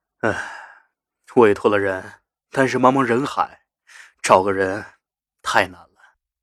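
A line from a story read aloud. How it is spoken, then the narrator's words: Sighing. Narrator (Chinese): 马君谦叹口气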